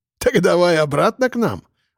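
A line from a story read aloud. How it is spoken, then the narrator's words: Loud laughing. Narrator (Russian): расхохотался полковник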